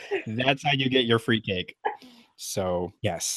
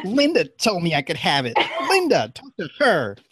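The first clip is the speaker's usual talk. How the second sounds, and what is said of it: Imitates another person's voice. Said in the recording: “That was perfect. That was a really good impression.”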